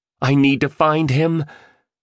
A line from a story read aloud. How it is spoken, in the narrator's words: the entrepreneur screamed